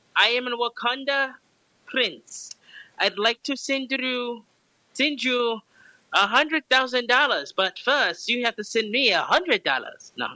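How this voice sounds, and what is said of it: Put-on Wakandan scam-caller accent. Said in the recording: “Let me see if I can do the voice.”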